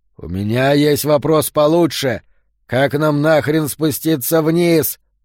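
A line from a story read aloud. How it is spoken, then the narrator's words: Growled. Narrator (Russian): прорычал он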